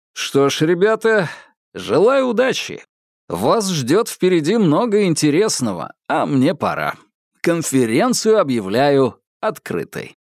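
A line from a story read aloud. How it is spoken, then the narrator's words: Loud declaration. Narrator (Russian): Соколов громко произнес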